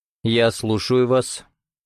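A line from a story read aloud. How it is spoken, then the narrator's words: Dry, polite reply. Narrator (Russian): сухо отвечал Родионов, сохраняя светский тон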